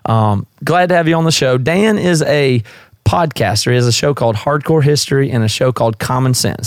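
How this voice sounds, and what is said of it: Southern US accent. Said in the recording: “my accent is obviously not from the Northwest. I'm from the South. I'm from South Carolina originally”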